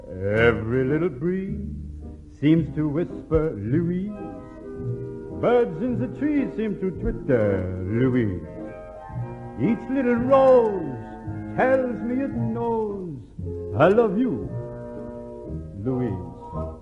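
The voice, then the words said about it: Singing in put-on French accent. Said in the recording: “my best Irish-French accent”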